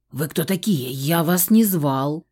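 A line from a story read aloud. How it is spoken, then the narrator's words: Hoarse. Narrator (Russian): просипел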